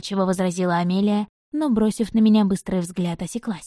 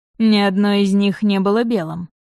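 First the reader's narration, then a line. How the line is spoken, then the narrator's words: Scoffing snort. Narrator (Russian): хмыкнул Рейнард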